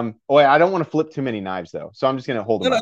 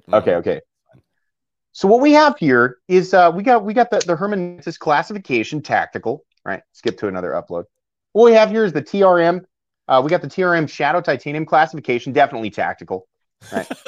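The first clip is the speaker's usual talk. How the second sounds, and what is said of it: Imitates another person's voice. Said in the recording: “my best impression”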